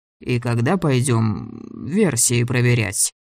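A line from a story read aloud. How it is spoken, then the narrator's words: Gloomy question. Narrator (Russian): спросил дядя Гриша мрачно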